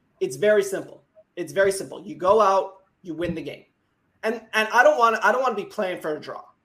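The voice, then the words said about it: Upper Midwest American accent. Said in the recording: “The American accent ... my accent is what everybody thinks is the American accent. It's the Upper Midwest ... I sound like a Disney Channel kid”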